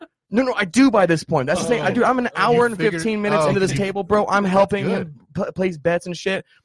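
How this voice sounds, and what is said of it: Usual voice. Nothing is said of it.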